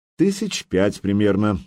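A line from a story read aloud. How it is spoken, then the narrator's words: Calm reply. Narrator (Russian): спокойно ответил Сергей Иванович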